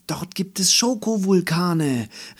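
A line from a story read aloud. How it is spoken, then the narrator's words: Calling out. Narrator (German): rief Andi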